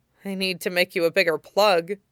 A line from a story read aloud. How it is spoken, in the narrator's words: Hunk murmured, half to himself